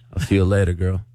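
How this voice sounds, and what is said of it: Sultry, seductive voice. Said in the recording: “sexy voice”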